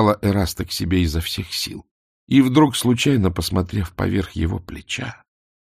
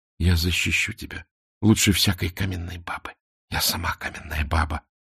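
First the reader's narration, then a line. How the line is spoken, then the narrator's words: Passionate whisper. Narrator (Russian): страстно шептала Мона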